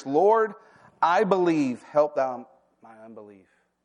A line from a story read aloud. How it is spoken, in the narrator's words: the father of the child cried out and said with tears